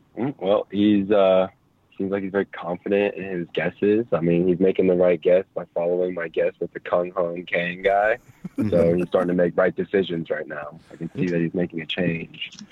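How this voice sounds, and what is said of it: Steady, slow coach-like delivery. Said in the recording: “He sounds like my corner coach ... it was steady and slow”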